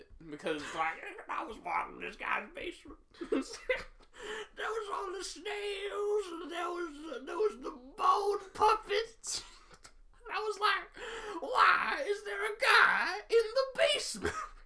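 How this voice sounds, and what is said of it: Imitates another person's voice, badly. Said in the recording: “a bad impression of like a Bill Cosby bit”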